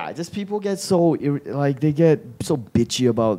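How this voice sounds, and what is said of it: Usual voice. Nothing is said of it.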